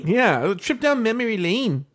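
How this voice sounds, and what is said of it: Poor attempt at Australian accent. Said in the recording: “I can't do Australian. ... I don't know why it's such a tough accent.”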